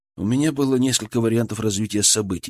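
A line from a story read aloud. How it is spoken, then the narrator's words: Calm reply. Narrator (Russian): спокойно ответил я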